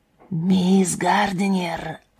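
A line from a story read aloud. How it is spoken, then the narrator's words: Whisper, unknown speaker. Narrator (Russian): чей-то шепот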